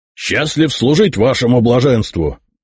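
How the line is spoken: Loud bark. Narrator (Russian): рявкнул маршал

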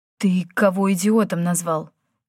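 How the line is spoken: Hoarse reply. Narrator (Russian): хрипло отозвался Йен

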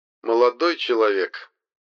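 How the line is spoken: Snide ghostly reply. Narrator (Russian): ехидно ответил призрак

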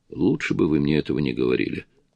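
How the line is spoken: Mumbling. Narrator (Russian): пробормотала Петти

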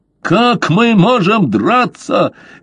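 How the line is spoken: Angry yelling. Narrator (Russian): гневно заорал Огл

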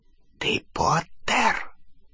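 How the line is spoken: Whisper. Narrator (Russian): прошептала она

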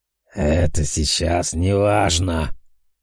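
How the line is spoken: Displeased growl. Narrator (Russian): недовольно рыкнул Ахриман

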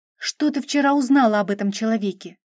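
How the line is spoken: Sharp question. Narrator (Russian): резко спросила

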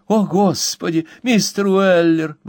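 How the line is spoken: Exclaiming. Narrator (Russian): воскликнула Мэри

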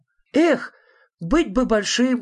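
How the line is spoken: Exclamation. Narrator (Russian): воскликнул я наконец

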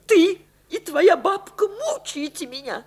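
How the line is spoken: Sobbing speech. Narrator (Russian): сказала она, всхлипнув

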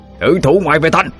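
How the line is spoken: Shout. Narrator (Vietnamese): miệng quát lên

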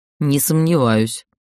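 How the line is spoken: Grumbling. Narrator (Russian): проворчал Дрейк

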